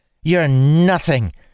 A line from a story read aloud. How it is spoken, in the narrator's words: she spat at Dalen